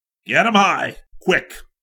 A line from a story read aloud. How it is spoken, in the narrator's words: the trooper barked